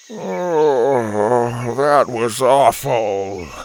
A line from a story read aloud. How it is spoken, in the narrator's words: he groaned